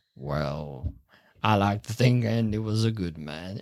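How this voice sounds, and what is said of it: Imitates another person's voice. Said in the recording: “impression is of a bloke doing an impression of Morgan Freeman”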